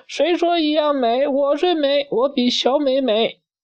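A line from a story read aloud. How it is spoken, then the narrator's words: Angry yelling. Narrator (Chinese): 大美气得哇哇叫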